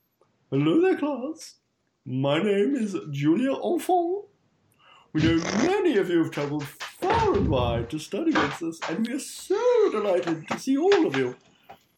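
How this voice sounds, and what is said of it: Mrs. Doubtfire-style character voice. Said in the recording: “my Mrs. Doubtfire impersonation”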